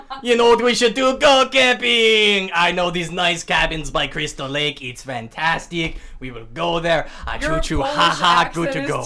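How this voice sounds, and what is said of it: Bad loud put-on Polish accent. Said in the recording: “Is terrible. ... I don't even know how to do a Polish accent. ... I just know it's loud and yelling.”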